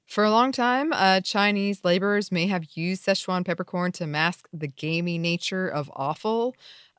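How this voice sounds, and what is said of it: Speaks with a noticeable accent. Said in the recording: “in case my accent made that sound strange”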